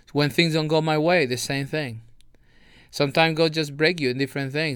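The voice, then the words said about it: Non-native English accent. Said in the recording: “my accent. People make fun of my accent sometimes ... my lack of knowledge sometimes in English”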